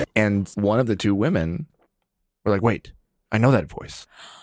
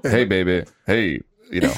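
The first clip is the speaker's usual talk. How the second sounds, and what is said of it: Imitates another person's voice. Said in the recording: “It's kind of a good imitation.”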